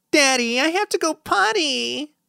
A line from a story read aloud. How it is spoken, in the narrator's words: whines Piper